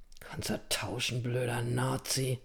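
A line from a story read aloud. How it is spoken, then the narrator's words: Very quiet mumble. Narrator (German): nuschelte Anselm so leise, dass Kalle es nicht hörte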